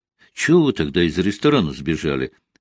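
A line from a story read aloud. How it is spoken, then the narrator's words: Plain. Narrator (Russian): спросил Валера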